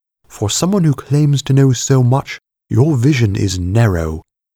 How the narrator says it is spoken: Hypatia snapped

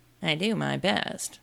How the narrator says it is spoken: the messenger said in a sulky tone

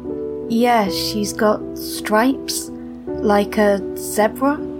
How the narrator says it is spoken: I explained, equally slowly

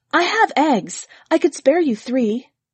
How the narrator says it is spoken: Another woman said eagerly

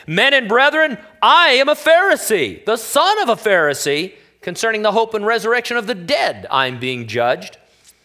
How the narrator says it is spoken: he cried out in the council

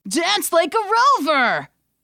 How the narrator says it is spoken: The remaining crowd roared

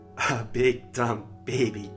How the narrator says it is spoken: she laughed

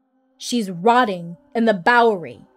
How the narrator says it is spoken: I barked

